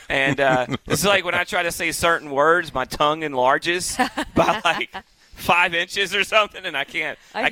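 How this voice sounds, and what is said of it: Southern American accent. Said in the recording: “I've got that southern accent.”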